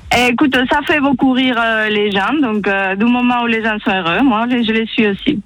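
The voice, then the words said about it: Spanish accent speaking French. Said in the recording (French): “Et ton accent, mon Dieu, il est magnifique ... je suis espagnole ... C'est beau l'accent espagnol.”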